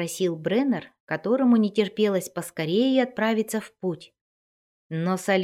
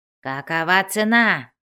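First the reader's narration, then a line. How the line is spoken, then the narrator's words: Harsh bark. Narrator (Russian): рявкнул дворф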